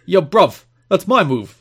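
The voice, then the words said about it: Put-on British accent. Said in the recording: “Is that his accent? ... Just switch the bro to a bruv.”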